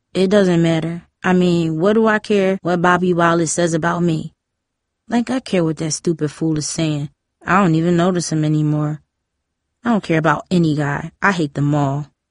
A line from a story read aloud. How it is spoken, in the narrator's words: said in a flat voice